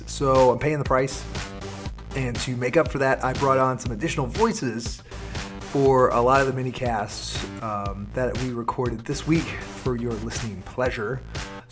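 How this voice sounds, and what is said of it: Hoarse, weakened voice. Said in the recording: “you get me and most of my voice. I'm kind of going through a little bit of laryngitis.”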